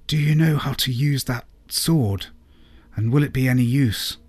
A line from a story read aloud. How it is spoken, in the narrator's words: whispered Lady Clara